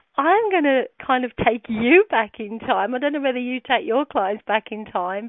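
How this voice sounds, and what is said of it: Birmingham English accent, not posh. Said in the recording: “I have an English accent, as you know, British, and I have evidently the worst British accent anyone could have. I come from Birmingham, and it's not posh like the Queen”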